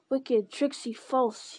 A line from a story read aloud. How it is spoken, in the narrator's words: he spat